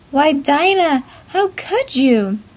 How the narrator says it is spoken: Marcella, as she cried

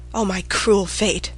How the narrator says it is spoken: she murmured

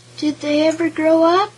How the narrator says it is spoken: inquired Miss Squealina Swyne in an anxious voice

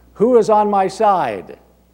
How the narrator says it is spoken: called out

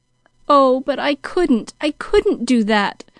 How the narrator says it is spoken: moaned Pollyanna

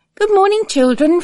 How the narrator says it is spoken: Flood said cheerfully

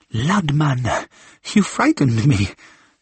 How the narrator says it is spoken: said Marguerite with a forced laugh which was not entirely feigned

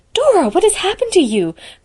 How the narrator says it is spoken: cried Anne with a guilty glance

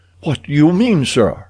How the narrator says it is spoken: he cried

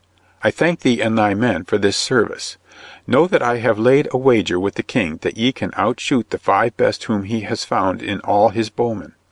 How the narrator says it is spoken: said in a clear voice

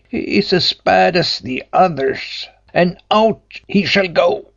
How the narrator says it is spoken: cried the tailor in a fury

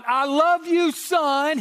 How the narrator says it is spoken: the father yells out

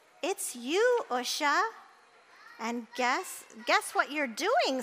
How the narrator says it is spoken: said Gloria

